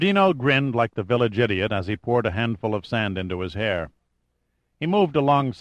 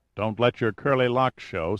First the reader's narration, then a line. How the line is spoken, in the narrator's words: said Pitt